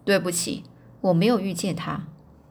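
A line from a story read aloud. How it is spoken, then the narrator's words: Cold, haughty reply. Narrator (Chinese): 盛气凌人的波多人，冷冷的回答说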